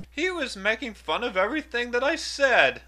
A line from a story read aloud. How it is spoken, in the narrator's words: the owl cried